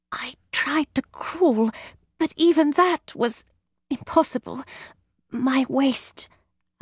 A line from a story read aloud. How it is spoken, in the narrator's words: she whispered